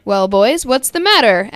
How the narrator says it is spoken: asked Lincoln

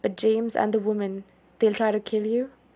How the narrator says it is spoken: I asked, my voice raw

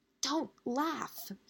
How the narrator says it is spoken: hissed

